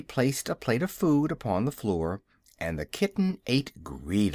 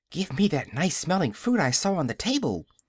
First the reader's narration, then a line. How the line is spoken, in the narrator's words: she begged, when she had cleaned the plate